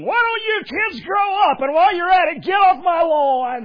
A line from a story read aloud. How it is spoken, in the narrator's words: screaming